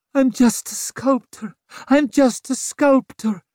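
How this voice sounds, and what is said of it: Desperate pleading, rising pitch, Styrian accent. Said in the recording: “She was saying it over and over in a Styrian accent ... Like a prayer. Higher and higher, faster and faster, more and more desperate.”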